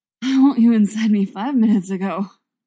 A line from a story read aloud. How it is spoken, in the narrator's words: he gasps